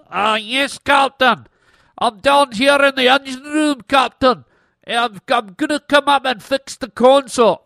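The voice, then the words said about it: Nasal put-on Scottish accent. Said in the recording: “plugging your nose and doing a Scottish accent. ... You pretended to be Scotty right there.”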